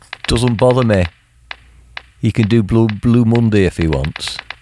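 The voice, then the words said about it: Put-on Mancunian accent. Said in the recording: “read it in a Mancunian accent ... Fucking perfect.”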